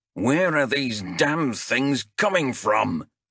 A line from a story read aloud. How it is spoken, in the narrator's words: roared Bengtson